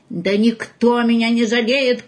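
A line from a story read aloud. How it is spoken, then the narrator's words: Shout. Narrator (Russian): крикнул Павлик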